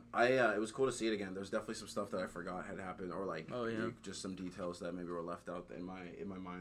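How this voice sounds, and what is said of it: Usual voice. Nothing is said of it.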